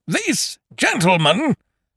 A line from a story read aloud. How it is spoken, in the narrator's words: boomed Eucridge